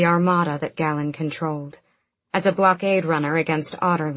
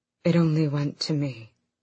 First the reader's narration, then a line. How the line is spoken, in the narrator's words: Galen said softly